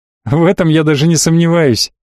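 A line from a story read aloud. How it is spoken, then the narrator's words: Laughing. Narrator (Russian): рассмеялся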